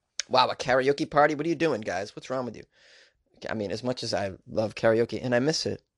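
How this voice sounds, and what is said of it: Usual voice. Nothing is said of it.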